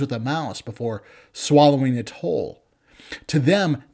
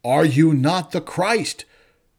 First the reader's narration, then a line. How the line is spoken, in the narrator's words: shouts the criminal